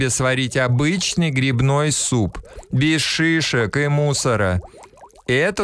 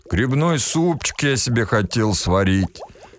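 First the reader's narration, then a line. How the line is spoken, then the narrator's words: Sad sigh. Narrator (Russian): печально вздохнул Эн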